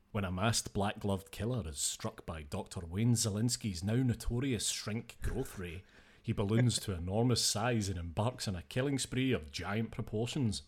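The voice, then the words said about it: Dramatic movie-synopsis narrator voice. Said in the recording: “my synopsis voice”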